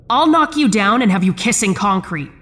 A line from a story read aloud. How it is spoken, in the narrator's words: I shouted